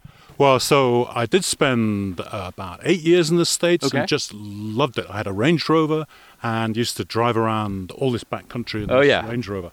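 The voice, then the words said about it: Scottish accent. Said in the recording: “That is not a Japanese accent. ... No, originally I'm from Scotland”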